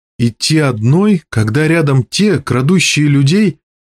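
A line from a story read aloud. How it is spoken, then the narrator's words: Sob. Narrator (Russian): Мира всхлипнула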